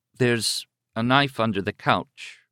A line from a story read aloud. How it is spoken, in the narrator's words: she said slowly